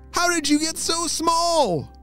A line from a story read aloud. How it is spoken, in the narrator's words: McKenzie shouted